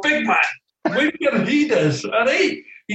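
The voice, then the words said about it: Imitated Scottish accent of George Graham. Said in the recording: “Excuse my Scottish accent”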